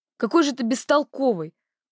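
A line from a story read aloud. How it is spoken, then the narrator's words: Loud, irritated, from outside. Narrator (Russian): громко и раздраженно произнес кто-то из-за открытых ворот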